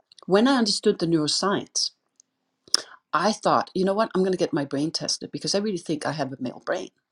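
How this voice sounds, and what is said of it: Danish accent. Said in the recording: “I'm Danish, if you hear an accent, that's what it is”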